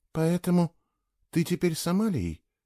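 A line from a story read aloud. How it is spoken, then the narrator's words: Quiet question. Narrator (Russian): тихо спросила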